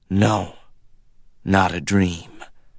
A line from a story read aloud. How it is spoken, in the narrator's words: said huskily